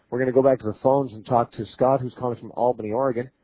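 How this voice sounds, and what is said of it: Voice sounds different, congested. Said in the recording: “I have a bit of an allergy, I think. That's why my voice is different. ... I was wondering why you were sounding different.”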